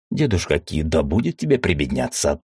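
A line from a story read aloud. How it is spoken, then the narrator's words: Snorted. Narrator (Russian): фыркнул Мефамио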